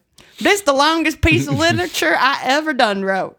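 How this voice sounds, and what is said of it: Dumb character with Southern accent. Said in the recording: “you didn't need to make him Southern.”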